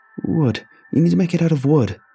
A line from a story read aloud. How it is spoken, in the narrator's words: I pleaded